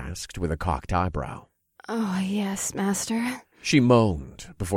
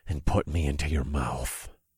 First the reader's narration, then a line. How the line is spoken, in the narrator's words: I growled